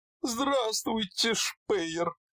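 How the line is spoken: Squeaky small voice, huge man. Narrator (Russian): пропищал все тем же удивительным для его огромной фигуры голоском

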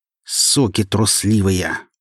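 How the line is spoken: Fierce growl. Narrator (Russian): прорычала точно тигрица

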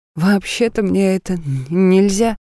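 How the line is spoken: Uncertain. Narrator (Russian): неуверенно произнёс он

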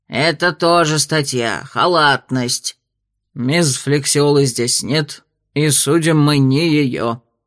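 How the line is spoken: Growled. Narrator (Russian): рыкнул Тер Вульф

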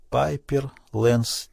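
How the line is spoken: Quiet. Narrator (Russian): тихо произнесла Селли Энн

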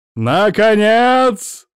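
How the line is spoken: Booming theatrical voice. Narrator (Russian): Адольф Брониславович заговорил своим громогласным театральным голосом

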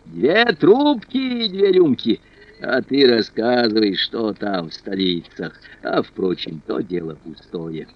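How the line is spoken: Booming laugh, then shouted. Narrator (Russian): Он раскатисто захохотал, крикнул появившемуся лакею

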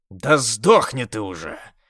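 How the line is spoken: Growling shout. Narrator (Russian): рычал я

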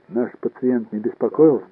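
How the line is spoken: Plain. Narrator (Russian): спросил я

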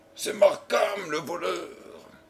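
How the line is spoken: Hissing exclamation. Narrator (French): s'écria-t-il d'une voix sifflante

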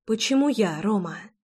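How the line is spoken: Whisper. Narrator (Russian): прошептала я

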